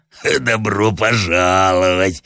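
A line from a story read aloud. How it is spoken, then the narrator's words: Hoarse bass, half voice. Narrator (Russian): отвечал в полголоса хриплый бас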